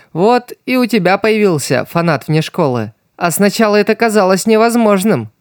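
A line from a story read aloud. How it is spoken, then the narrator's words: Cheerful laughing, mouth full. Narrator (Russian): Весело засмеялась Стелла, доедая картошку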